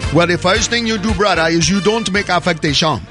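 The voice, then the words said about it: Put-on accent. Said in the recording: “I dropped the accent.”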